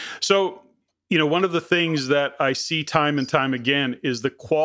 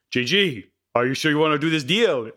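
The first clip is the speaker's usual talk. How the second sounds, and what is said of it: Deliberately bad French accent. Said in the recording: “That's my really bad attempt. ... Is that your French accent? ... That's my really bad French accent.”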